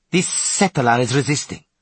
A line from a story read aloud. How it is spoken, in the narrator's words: snorted the woman addressed as Frigga